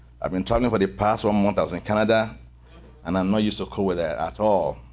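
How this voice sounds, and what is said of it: Speaks with a noticeable accent. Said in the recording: “I don't know what to do with my accent. I'm dumb, my accent.”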